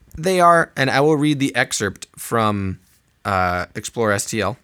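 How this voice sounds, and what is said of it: Usual voice. Nothing is said of it.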